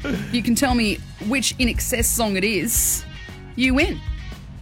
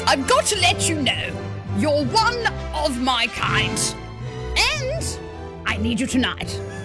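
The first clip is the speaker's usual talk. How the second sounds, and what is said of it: Drunk aristocrat voice, mouth full. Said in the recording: “in my drunk aristocrat voice ... With a biscuit in my mouth.”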